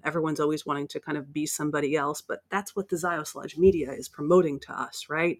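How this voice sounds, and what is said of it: American accent. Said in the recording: “You can probably tell by my accent that I'm from the States.”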